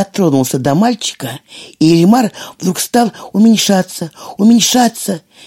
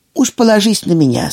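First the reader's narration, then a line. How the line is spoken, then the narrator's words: Plain, old man. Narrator (Russian): сказал дедушка Дрема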